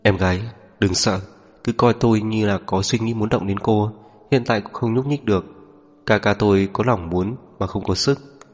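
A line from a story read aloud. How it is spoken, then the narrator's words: Laughing. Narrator (Vietnamese): Lục Niệm Ca bật cười, mở miệng nói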